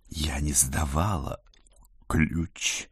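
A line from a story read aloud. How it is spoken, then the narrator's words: Meaningful whisper in ear. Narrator (Russian): многозначительно шепнула на ухо Жюльет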